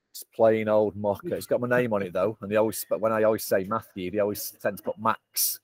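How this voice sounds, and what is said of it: Mancunian accent. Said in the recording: “my Mancunian accent”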